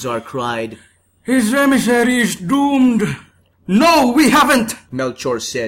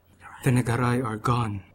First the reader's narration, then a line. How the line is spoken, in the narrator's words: Melchor whispered